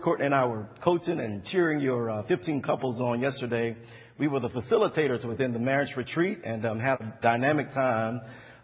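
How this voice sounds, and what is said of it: Slightly hoarse voice. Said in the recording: “If I sound a little hoarse”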